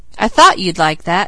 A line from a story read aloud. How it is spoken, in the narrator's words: laughed the editor